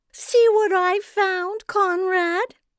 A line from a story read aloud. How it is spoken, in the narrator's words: she said in her syrupy voice